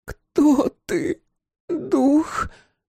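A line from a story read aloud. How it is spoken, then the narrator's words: Hoarse wheeze. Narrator (Russian): прохрипела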